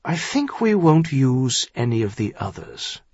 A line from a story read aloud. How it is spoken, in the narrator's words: he said finally